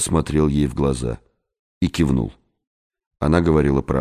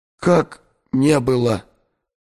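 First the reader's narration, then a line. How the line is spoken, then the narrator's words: Moan from corner. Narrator (Russian): простонал из угла Эдгар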